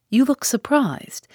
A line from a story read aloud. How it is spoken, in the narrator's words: said Mr